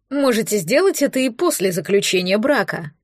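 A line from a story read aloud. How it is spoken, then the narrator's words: Grumbling. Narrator (Russian): проворчала хозяйка дома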